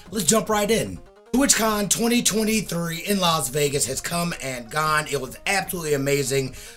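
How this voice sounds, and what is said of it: Hoarse, worn-out voice. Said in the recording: “as you can tell, my voice is shot”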